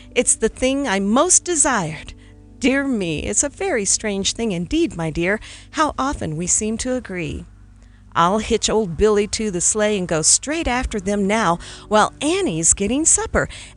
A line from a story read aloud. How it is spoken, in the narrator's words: confessed warmly